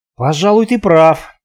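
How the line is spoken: Forced out. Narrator (Russian): выдавил я

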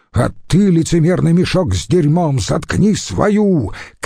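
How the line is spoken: Shouted retort. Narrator (Russian): крикнул в ответ Филипп

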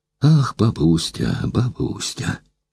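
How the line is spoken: Dull complaining voice. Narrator (Russian): пожаловалась она непривычно тусклым голосом

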